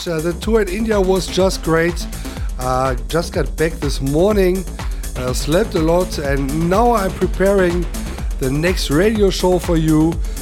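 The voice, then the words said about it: Damaged, rough voice. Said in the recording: “As you can hear, my voice is a little bit damaged.”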